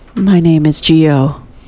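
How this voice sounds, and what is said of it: Serious radio-host style voice. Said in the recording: “that was my serious voice ... I wanted to really give it my best Ira Glass”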